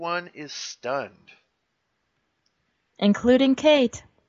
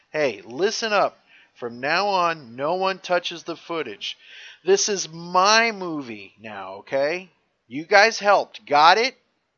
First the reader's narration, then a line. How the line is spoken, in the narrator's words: Luke, he's talking to everyone, and he screams